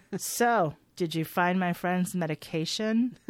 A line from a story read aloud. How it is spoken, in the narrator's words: Olivia, who asks accusingly in her dead doll voice